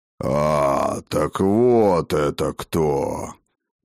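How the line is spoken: Deep muffled bass. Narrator (Russian): пробасил низкий глухой голос

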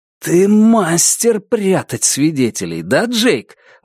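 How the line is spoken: Forced out, strained. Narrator (Russian): выдавил он

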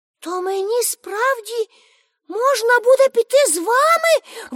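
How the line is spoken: Exclaiming. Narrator (Ukrainian): вигукнула Пепі

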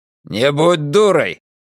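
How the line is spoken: Barked. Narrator (Russian): рявкнул он

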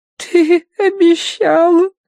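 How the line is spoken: Whimpering, lip curled. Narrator (Russian): кривя нижнюю губу, захныкала Агнес

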